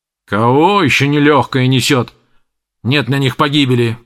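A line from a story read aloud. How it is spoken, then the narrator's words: Grumbling blacksmith. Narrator (Russian): проворчал кузнец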